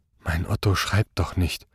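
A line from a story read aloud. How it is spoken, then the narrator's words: Murmuring. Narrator (German): murmelte Frau Quangel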